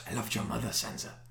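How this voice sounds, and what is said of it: Creepy gravelly Irish/Welsh-ish character voice. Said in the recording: “what is your accent? ... It's Irish/Welsh ... creepy but gravelly”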